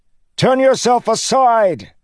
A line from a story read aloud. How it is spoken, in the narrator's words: Kaladin shouted into the churning winds